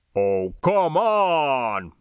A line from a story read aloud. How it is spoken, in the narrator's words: Barney howled, and so did the others